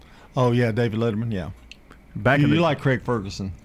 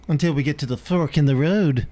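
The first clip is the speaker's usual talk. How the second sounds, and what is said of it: Imitates another person's voice. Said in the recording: “That was my Johnny Carson impersonation.”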